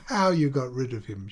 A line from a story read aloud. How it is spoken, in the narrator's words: she said, laughing